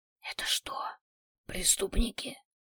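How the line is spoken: Whisper. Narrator (Russian): Маринка перешла на шепот

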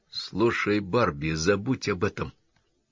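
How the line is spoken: Conspiratorial whisper. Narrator (Russian): заговорщическим шепотом заговорил Саймон

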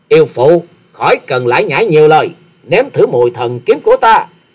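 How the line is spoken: Loud angry bark. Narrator (Vietnamese): Hoa Sĩ Kiệt trợn trừng nạt to nói

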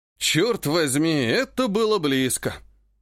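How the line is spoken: Weary exhale. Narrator (Russian): Устало выдохнул Жак

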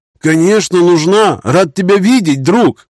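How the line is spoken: Joyful yell. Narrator (Russian): радостно завопил барон

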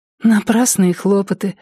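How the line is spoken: Sighing. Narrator (Russian): вздохнула

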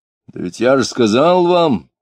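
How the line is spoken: Rough loud shout. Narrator (Russian): грубо и громко крикнул Иноков

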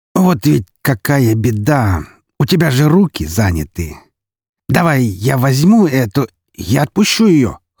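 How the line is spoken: Hoarsely forced out. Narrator (Russian): хрипло выдавила Мария

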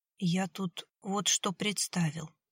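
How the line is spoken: Quiet thoughtful speech. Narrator (Russian): тихо заговорил Виталий, задумчиво

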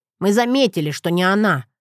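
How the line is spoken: Snorting. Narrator (Russian): фыркнул Джет

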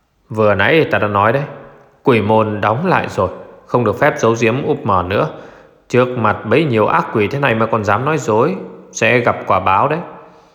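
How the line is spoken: Harsh, stern. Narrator (Vietnamese): Vương Thiệu Nghĩa gằn giọng

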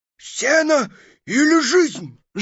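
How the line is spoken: Wolf's hoarse rasp. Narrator (Russian): Выскочил волк-разбойник на дорогу, и прохрипел

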